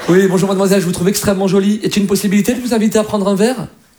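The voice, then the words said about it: Imitated posh Parisian accent. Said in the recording (French): “l'accent ... un Parisien, quand il drague, c'est quand même classe”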